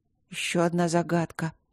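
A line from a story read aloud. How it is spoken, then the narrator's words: Strained mutter. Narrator (Russian): пробормотала Алина вымученно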